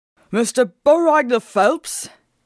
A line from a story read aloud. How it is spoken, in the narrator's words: he said, his voice urgent and gruff